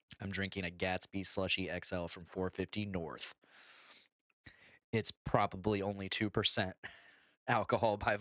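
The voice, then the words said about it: Low, hoarse voice. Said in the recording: “is my voice really low? ... I'm really hoarse right now”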